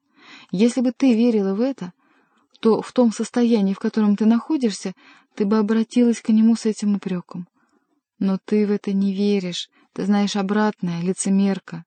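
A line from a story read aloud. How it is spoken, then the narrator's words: Affectionate. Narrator (Russian): добавила она ласково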